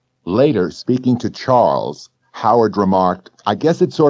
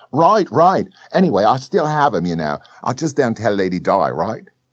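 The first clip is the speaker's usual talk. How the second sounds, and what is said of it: Ridiculous Cockney-esque accent. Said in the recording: “speaking in a ridiculous Cockney-esque accent”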